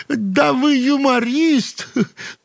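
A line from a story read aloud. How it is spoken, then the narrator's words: Laughing through tears. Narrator (Russian): Сквозь смех, смахивая толстыми пальцами слезы, сказала она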